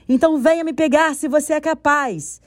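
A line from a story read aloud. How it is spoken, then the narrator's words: Shouting back. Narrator (Portuguese): Nim gritou de volta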